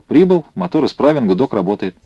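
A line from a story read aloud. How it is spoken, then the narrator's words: Unexpectedly cheerful. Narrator (Russian): неожиданно весело сказал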